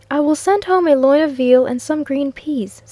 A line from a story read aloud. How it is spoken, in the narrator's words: said I